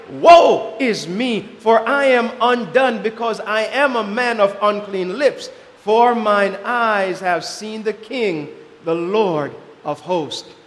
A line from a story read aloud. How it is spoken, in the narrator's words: In deep humiliation, he cried